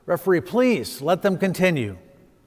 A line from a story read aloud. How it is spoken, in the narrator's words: the sensei called out and says